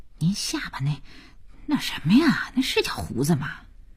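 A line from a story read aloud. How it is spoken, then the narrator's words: Embarrassed soft question. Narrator (Chinese): 佳音觉得丢人，他低头轻声地问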